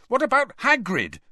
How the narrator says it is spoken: Harry said angrily

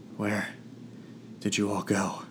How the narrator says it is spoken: I asked weakly

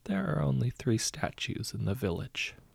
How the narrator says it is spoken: said quietly

